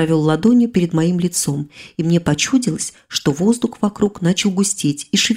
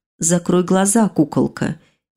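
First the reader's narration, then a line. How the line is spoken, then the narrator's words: Tender purr in the ear. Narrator (Russian): нежно так промурлыкал мне на ухо супруг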